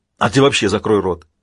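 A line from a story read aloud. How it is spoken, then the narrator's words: Snapping retort. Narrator (Russian): огрызнулся Шеридан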